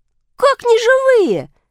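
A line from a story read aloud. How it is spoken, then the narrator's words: Shout. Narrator (Russian): закричал Бобик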